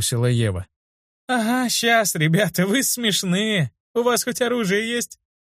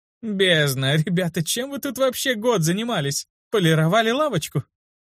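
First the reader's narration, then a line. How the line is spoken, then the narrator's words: Ringing laughter. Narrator (Russian): Она заливисто рассмеялась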